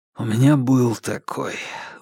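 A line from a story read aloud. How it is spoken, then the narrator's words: Breathy exhale. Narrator (Russian): выдохнул Марк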